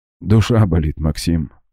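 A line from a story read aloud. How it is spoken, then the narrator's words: Sad, smiling. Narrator (Russian): грустно улыбнулся шеф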